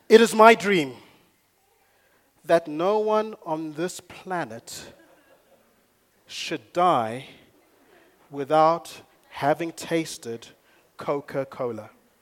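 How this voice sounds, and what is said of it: Put-on American accent. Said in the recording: “That's my American accent, by the way.”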